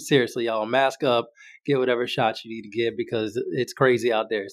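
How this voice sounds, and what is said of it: Weird-sounding voice from sickness. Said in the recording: “My voice is going to sound a little weird ... I'm getting over a little bit of a sickness that lingered ... my voice slowly coming back”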